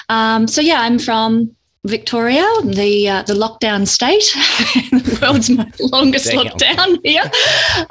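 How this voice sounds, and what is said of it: Australian accent. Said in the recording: “quite obviously from my accent, I'm from Australia”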